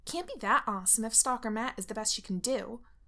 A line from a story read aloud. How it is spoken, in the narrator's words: Lydia snaps